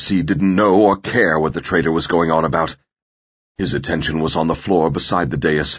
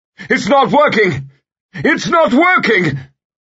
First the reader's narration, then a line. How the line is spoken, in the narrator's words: Farad Ez Hemez was shouting